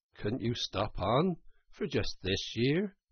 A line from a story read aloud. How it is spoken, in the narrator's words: suggested the Water Rat wistfully